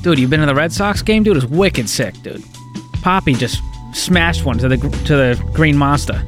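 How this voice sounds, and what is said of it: Put-on Boston accent. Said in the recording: “We can bring it up when we want to. ... Take us to break in Boston. Bostonian. ... it was good accent.”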